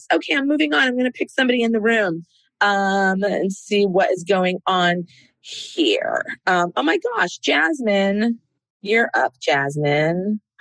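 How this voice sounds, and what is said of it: Hoarse voice. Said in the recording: “I'm a little hoarse, as you can hear.”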